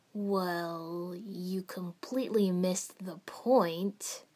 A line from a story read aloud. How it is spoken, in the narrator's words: Jiraiya said slowly